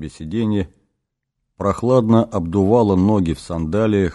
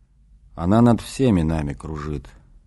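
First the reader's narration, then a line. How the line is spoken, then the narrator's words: Quiet, to himself. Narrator (Russian): тихо отозвался Иисус, как бы говоря с самим собой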